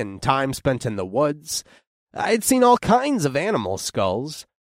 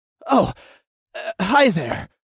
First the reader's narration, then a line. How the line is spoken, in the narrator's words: I panted